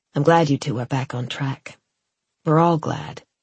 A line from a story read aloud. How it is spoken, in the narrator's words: She paused, then said gravely